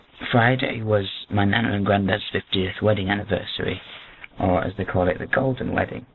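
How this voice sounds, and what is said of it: Strained, partly lost voice. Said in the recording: “why my voice seems a little bit strange. It's because I've lost my voice this weekend”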